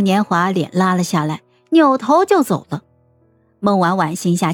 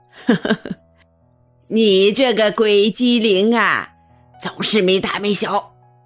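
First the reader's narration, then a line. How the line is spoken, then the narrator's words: Old woman laughing. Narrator (Chinese): 孟老太太也笑了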